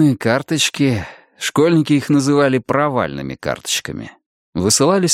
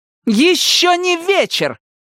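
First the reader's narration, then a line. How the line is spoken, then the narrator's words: Piercing scream. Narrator (Russian): пронзительно закричала Регина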